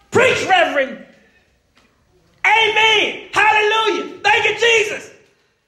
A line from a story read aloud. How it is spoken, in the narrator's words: she shouted